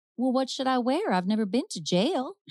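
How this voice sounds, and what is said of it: Put-on Southern accent. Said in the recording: “That's my best Southern accent ... she's from Gone with the Wind”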